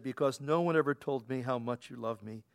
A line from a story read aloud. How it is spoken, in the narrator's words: Hitler hung his head sadly and said